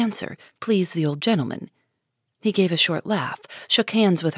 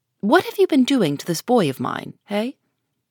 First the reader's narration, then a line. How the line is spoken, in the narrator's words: question, sharply put